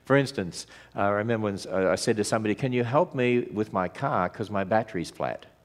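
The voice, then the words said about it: Australian English accent. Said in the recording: “we came over from Australia ... we speak Australian English”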